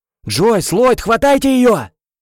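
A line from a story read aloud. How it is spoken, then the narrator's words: Yelled. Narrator (Russian): заорал оператор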